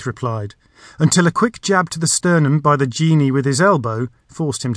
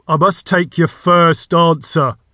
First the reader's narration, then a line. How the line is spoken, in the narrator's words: the voice boomed